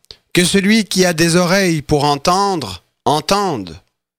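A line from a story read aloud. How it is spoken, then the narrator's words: Exclaiming. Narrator (French): il s'écria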